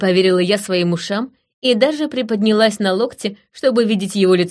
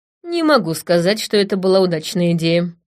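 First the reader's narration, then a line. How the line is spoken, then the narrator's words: Grumbling. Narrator (Russian): проворчала я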